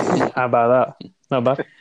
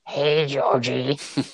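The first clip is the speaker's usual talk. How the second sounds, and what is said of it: Terrible imitation of a creepy clown. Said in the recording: “prepare for a terrible impression, is including a special clown”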